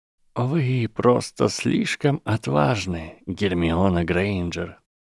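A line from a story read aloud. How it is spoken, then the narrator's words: Soft but clear headmaster. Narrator (Russian): мягко, но отчетливо сказал директор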